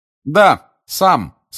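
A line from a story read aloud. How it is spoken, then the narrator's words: Loud, meant to be overheard. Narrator (Russian): сказал громко Гарри, так, чтобы и Каркаров его услышал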